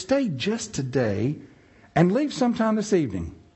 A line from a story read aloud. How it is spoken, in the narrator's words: the girl's father pleaded